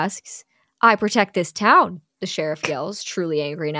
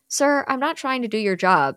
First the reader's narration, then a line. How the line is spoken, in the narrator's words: Cindy says calmly